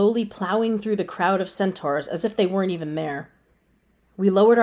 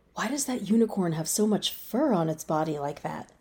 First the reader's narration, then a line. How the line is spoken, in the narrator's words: Destina whispered to me